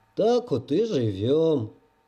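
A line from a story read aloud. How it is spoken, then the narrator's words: Long sigh. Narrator (Russian): Палыч протяжно вздохнул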